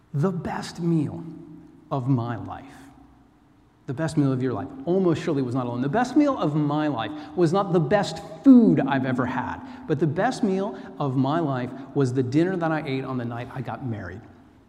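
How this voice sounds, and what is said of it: Melodious American accent. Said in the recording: “the melodious tones of my American accent”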